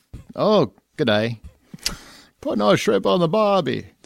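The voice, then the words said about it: Bad fake Australian accent. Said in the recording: “Like you insulted Australians last week? ... Did I do it wrong again? ... I think so. ... I'm not an accent guy, man.”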